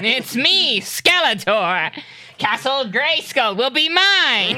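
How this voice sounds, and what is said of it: Skeletor villain character voice. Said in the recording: “my Skeletor impression”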